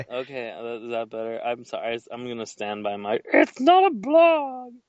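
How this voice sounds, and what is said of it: Bad Muppet-like character voice. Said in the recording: “You're making her sound like a Muppet ... It's like a bad Miss Piggy impression.”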